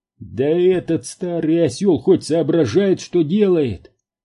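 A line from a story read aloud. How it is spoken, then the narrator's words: Yelling. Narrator (Russian): завопил Кейн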